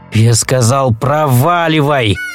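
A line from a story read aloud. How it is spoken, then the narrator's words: Growling. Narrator (Russian): прорычал Сэм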